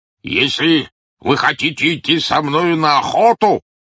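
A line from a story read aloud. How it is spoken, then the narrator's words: Shouting. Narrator (Russian): крикнул Мохнач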